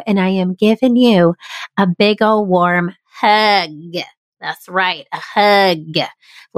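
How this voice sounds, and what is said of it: Southern American accent. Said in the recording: “now I have a Southern accent again”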